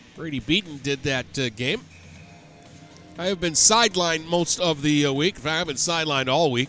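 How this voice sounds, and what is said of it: Sick, weakened voice. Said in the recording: “you can probably tell by my voice I am not at full capacity”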